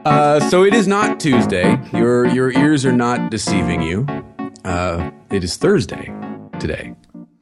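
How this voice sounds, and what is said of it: Sick, messed-up voice like Stallone. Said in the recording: “Because I'm sick. My voice is all messed up... suspiciously similar to Sylvester Stallone”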